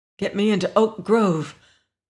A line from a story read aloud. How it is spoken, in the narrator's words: Lois gasped